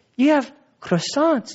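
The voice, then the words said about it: Fake French accent. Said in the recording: “That's my fake French accent.”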